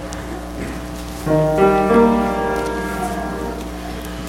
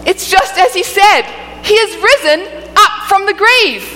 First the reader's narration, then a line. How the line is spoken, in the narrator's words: she exclaimed